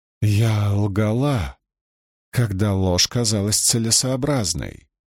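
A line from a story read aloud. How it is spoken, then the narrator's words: Sighing woman. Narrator (Russian): вздохнула Суан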